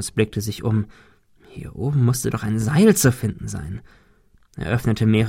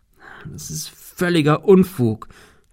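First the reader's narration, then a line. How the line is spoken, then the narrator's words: Stammer. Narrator (German): stammelte er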